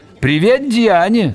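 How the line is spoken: Shouted. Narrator (Russian): заорал

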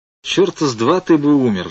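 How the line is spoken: Sighed. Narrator (Russian): вздохнул я

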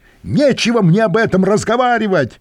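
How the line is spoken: Angry shout after someone. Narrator (Russian): со злостью крикнул он мне вслед

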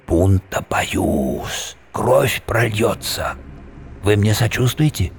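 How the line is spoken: Whisper. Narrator (Russian): прошептал

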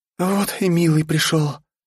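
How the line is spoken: Pleased, weak, tearful. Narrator (Russian): Довольно, но бессильно, сквозь слезы, сказала Полина

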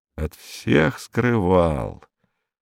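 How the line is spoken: Muttering. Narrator (Russian): пробормотал инспектор

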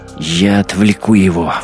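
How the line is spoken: Breathless squirrel. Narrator (Russian): выдохнула белка

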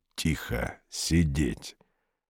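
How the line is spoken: Whisper. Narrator (Russian): Клетчатый шепотом

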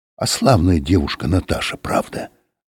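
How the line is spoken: Whisper. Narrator (Russian): сказал кто-то шепотом

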